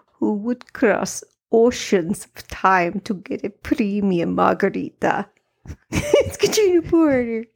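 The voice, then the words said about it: Put-on accent, done well. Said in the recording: “I'm coming out of the gate with an accent. ... You are. That was good.”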